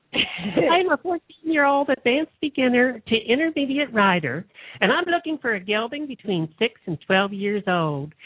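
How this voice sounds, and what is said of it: Imitated 14-year-old girl voice. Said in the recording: “can't you do this in a 14-year-old girl voice, please?”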